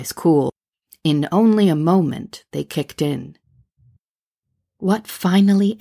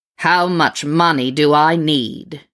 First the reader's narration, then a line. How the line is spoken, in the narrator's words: bellowed like a demon fresh from hell